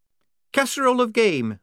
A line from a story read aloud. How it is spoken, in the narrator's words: said Shufti firmly